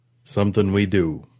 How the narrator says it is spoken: Perlman rumbled

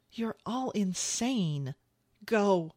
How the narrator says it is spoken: he pleaded with her, shaking his head in frustration

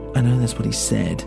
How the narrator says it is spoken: Hemero murmured

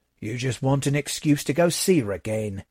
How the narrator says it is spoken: I grumbled

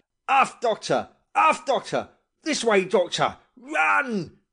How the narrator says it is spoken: the captain was shouting to me

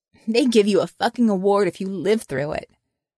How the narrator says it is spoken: and laughed

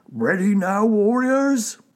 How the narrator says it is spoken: shouted Wolf

